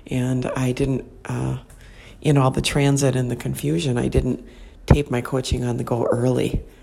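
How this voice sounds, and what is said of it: Soft whispered speech. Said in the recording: “I'm kind of whispering”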